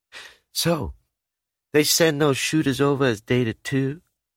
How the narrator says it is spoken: Sugar drawls

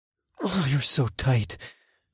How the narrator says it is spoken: I groaned

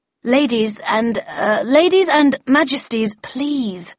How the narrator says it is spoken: I said in a conciliatory tone

